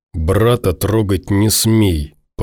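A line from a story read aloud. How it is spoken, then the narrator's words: Growling. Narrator (Russian): прорычал он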